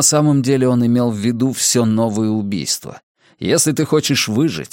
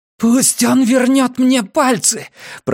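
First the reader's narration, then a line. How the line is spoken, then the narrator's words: Hoarse rasp. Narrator (Russian): прохрипела Маля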